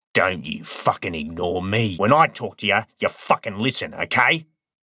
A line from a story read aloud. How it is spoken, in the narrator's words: snarled